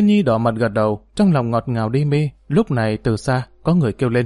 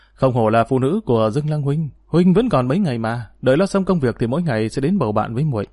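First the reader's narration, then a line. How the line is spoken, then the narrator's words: Soft, amused, slightly worried. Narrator (Vietnamese): Mặc dù Dương Lang hơi lo lắng, song nghe lời này thì cũng không nhịn được mà bật cười, y khẽ nói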